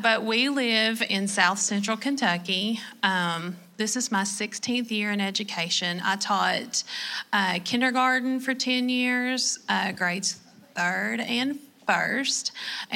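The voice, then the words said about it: Southern Kentucky accent. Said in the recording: “you are so Southern ... your accent”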